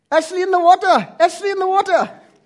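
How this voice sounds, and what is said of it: Yelled imitation, strong Indian accent. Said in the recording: “he has quite a strong Indian accent ... he starts pointing and yelling”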